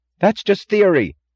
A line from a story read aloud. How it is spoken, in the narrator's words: snapped Wesley Mooch